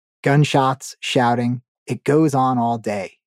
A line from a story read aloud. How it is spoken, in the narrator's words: he said